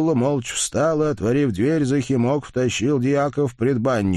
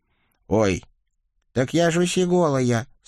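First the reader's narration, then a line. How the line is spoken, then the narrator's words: Deliberate squeak. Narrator (Russian): старательно пропищал Николя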